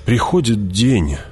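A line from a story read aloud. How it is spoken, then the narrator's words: Sighed, duke. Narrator (Russian): вздохнул герцог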